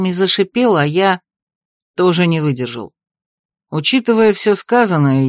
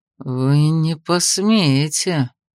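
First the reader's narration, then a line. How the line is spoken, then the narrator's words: Through gritted teeth. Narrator (Russian): процедил сквозь зубы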